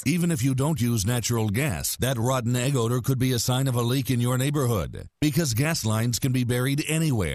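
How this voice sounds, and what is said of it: Deep narrator voice. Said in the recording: “deep voice narrator”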